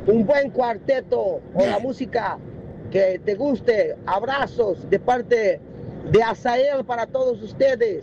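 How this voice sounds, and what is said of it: Spanish with a Brazilian accent. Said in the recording (Spanish): “tiene un acento muy raro ... Brasilero.”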